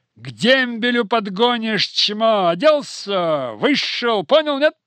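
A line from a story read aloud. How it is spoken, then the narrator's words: Loud yelling. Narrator (Russian): Горбунов отвечал ему, но орал на весь барак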